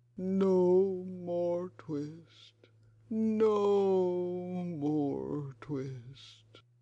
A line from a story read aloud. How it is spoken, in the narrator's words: was very ill with a fever, tossing and turning in his four-post bed, and still in his dreams he mumbled